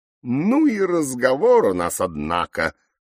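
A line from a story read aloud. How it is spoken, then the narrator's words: Parrot's wry snort. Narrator (Russian): хмыкнул попугай по кличке Кака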